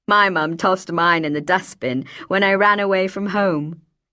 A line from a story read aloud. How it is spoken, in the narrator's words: she said with something that, had it lived, might have become a chuckle